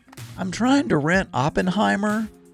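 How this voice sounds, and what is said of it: Put-on Southern accent. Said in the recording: “That's not how my stepdad sounds. He's not even, doesn't even sound Southern.”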